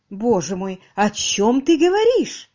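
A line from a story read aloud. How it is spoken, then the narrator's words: Exclaimed in unison. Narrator (Russian): Хором воскликнули Полина и Миллиман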